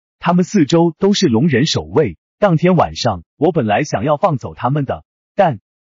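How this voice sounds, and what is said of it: Broken, choked-up voice. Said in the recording (Chinese): “用破碎的声音说”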